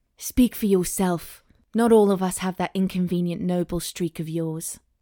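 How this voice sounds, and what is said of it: Put-on British accent. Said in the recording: “I'm going to make him British”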